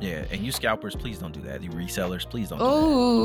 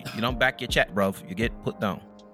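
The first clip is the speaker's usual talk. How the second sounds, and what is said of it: Attempted English accent. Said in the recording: “That's the closest I got to the English accent.”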